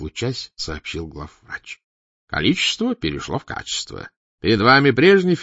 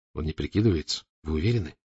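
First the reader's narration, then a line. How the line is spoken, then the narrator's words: Quiet question. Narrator (Russian): тихонько спросил Фандорин, все еще с опаской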